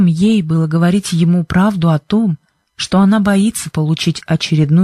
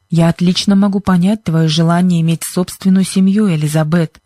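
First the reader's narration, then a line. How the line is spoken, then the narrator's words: Plain. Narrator (Russian): ответил мистер Джонсон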